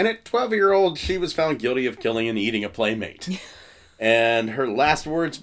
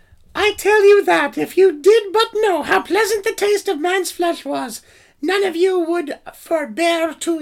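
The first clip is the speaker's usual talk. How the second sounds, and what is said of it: Impression of a young girl's voice. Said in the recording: “That's my oh. best 12 year old girl impersonation.”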